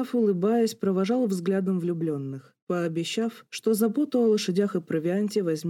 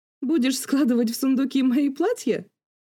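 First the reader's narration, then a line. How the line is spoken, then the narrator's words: Laughing. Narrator (Russian): Рассмеялась леди Пембрук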